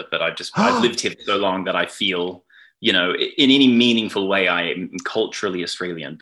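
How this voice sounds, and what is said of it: Anglo-leaning Australian accent. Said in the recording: “I have an Australian accent... I sort of just have this like just very, very Anglo accent. You know, it's more Australian than it is anything else”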